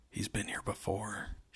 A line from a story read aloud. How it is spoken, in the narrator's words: she whispered